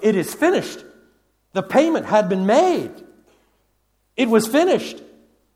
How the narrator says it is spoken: Christ cried

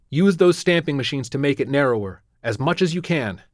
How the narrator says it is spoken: shouting

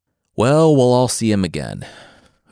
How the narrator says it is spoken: Odysseus said with a sigh

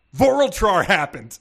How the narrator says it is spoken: Bernardo yelled

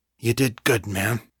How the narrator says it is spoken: he said, his voice suddenly thick with emotion

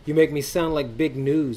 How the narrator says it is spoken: Adelaide said, laughing

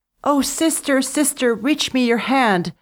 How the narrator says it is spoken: cried as she floated away

